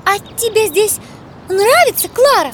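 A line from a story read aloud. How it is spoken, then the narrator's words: Asked excitedly. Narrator (Russian): взволнованно спросила Гайди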